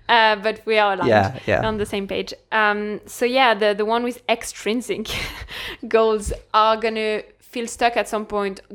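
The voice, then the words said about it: French accent. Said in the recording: “French accent.”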